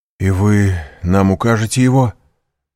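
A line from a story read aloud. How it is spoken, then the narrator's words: Exclamation. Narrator (Russian): воскликнул Максимилиан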